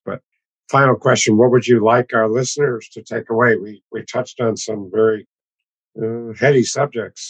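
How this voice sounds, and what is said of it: Hoarse, strained, partly lost voice. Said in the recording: “I excuse myself for my voice. I've lost my voice.”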